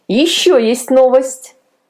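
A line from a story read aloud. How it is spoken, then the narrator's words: Laughing aunt. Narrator (Russian): смеясь сообщила тетя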